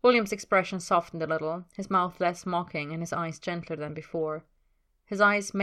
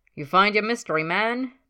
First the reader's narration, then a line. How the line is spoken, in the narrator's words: Ted called out across the room